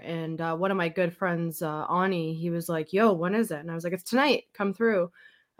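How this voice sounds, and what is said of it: Sick, congested-sounding voice. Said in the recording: “you can probably tell by my voice, I'm recovering from a cold”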